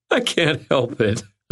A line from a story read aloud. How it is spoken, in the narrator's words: I said, wiping at tears of laughter